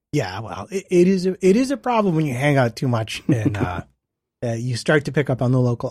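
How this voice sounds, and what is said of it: American accent. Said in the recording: “I don't think I've lost my American accent just yet ... doesn't sound British at all ... Sound more Dutch than British”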